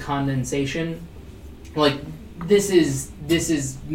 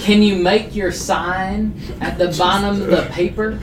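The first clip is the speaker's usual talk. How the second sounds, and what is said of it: Poor put-on Southern accent. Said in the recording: “That is the worst Southern accent.”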